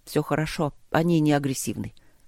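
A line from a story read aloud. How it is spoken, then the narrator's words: Quiet. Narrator (Russian): тихо сказал Трот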